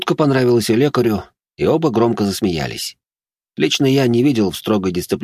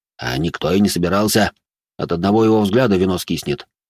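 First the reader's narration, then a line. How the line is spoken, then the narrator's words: Deep voice, smirking. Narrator (Russian): пробасил Жуль и усмехнулся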